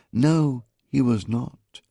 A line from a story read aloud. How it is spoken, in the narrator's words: contradicted flatly